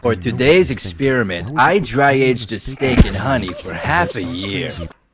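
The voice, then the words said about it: Imitates another person's voice. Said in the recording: “good Guga Foods impression”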